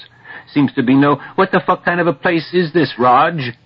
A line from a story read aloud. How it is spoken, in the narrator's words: yelling down slantwise across seven enemy faces